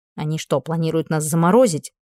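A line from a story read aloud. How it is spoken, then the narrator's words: Grumbled. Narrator (Russian): проворчала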